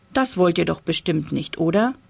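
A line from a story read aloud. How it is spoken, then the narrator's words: Plain question. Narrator (German): fragte Papa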